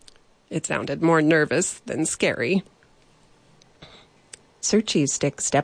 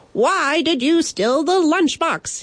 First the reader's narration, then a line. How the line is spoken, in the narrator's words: he shouted, his voice cracking halfway through